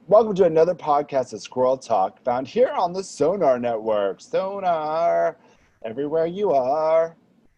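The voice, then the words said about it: Strained, worn-out, tired voice. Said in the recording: “my voice is giving out... I haven't slept in a few days, so I'm a little woo.”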